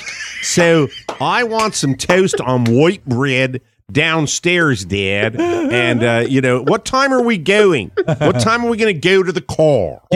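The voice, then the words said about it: Child's Baltimore accent. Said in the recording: “Baltimore accent ... is a master of dialects”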